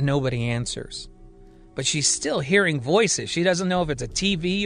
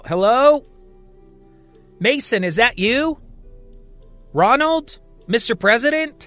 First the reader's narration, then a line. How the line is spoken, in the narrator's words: she yells out